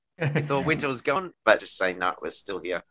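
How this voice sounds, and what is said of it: Voice sounds a bit sick. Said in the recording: “I'm a bit cold today ... can I hear in your voice a little bit? I hope you have a speedy recovery.”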